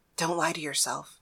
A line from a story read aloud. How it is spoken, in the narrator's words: she whispered